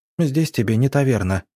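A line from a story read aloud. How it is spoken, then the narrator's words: Sharp retort. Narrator (Russian): резко выдала Арина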